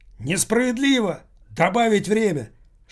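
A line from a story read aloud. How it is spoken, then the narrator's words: Loudest yelling. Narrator (Russian): Шаварский вопил громче всех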